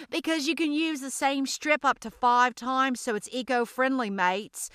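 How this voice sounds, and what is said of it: Put-on Australian accent. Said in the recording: “I promise I won't do that Australian accent for y'all anymore.”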